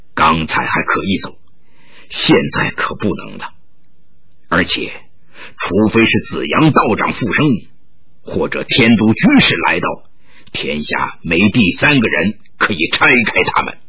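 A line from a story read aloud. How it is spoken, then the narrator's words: Sighing, whispered. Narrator (Chinese): 铁飞龙叹了口气，悄声说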